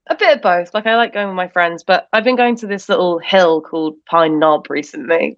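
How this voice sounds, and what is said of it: British English accent. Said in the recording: “are you from England? ... We don't find your accent charming. We just like British people.”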